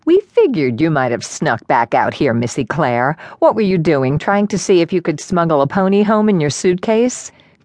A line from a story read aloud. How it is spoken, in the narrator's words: Krista chuckled